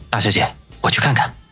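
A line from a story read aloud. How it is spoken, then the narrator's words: Low, concerned voice. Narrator (Chinese): 马尾青年眉头一皱，向王小雷低声的说道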